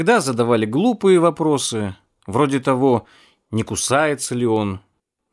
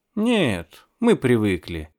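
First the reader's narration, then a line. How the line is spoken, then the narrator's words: Calm, tour-guide manner. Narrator (Russian): говорил я спокойно, как экскурсовод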